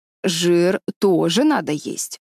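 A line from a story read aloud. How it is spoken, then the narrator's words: Stern. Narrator (Russian): строго сказала она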